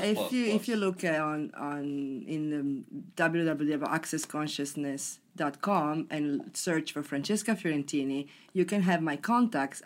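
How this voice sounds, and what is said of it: Italian accent. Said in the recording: “I love the Italian accent. It's so sexy.”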